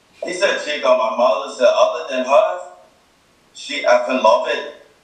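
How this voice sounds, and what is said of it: Put-on Irish accent. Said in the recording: “That's in my Irish accent.”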